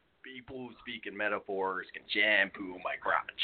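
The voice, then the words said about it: Jack Nicholson impression. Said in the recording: “I actually do an impersonation of Jack Nicholson. ... Not bad. ... Need to work on that a little bit.”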